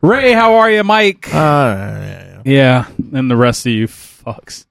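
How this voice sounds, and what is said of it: Usual voice. Nothing is said of it.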